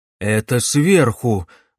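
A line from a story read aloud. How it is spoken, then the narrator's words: Agitated. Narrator (Russian): взволнованно сказал профессор Живодан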